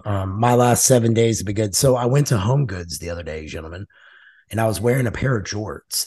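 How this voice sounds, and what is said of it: Strained, worn-out voice. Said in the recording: “my voice is getting shot too”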